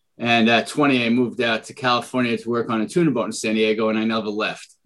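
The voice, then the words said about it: Bronx New York accent. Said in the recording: “you'll hear my Bronx accent”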